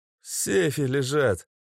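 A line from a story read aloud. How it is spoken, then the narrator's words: Hoarse voice. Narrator (Russian): севшим голосом сообщил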